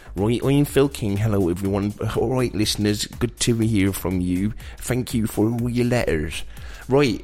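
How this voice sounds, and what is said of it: Impression of Phil King's voice. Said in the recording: “I've got to do it in Phil King's voice ... You can't do his voice.”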